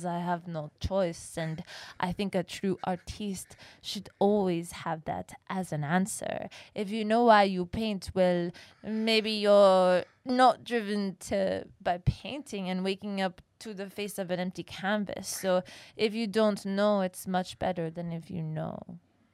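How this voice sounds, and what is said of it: Convincing put-on foreign accent. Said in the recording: “that was the first time you actually nailed an accent, ... a foreign ... good. accent, and you you stayed in character the entire”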